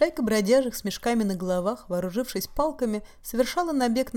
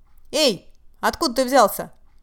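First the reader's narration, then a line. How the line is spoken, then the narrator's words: Brazen shout. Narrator (Russian): Набравшись наглости, крикнули они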